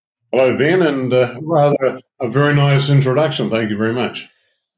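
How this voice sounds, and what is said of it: New Zealand accent. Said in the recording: “that's the voice of ... by the way, for those of you who want to tell the difference, obviously, the New Zealand accent.”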